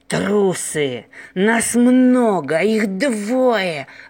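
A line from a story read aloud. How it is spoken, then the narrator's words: Growling. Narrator (Russian): рычал вожак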